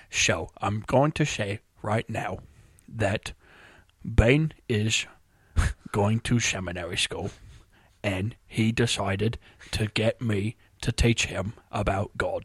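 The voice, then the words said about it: Michael Caine impression. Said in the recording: “I've thought about trying to do a Michael Caine ... That's not a bad Michael Caine.”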